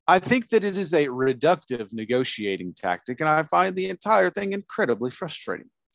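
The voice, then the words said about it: Posh British accent. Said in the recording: “I don't know why I'm making him sound so posh. ... posh and British.”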